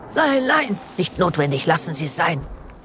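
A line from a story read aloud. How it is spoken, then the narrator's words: Priest hissing. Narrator (German): faucht der Priester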